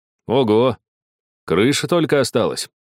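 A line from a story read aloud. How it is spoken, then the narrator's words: Exclaiming. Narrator (Russian): воскликнул Геннадий Васильевич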